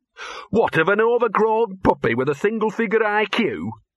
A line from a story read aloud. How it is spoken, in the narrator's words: sneered Gaspard